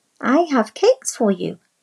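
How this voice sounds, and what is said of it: Small, meek voice. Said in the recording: “called the big bad wolf in a small voice.”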